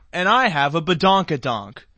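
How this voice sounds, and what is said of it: Impression of Kim Kardashian. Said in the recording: “my impression of Kim Kardashian ... That was Kim Kardashian”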